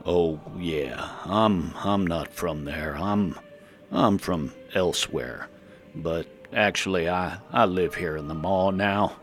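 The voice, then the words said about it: Speaks with an unusual accent. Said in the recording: “that's an interesting accent.”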